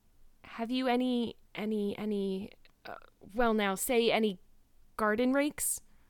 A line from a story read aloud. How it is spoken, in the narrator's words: stammered Matthew